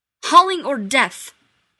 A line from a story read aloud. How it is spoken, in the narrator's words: they proclaimed rather harshly